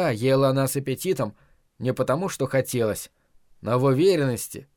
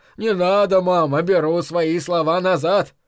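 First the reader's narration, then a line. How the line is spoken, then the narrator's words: Mock-frightened shout. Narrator (Russian): ее седовласый сын, притворно сжавшись в комок, закричал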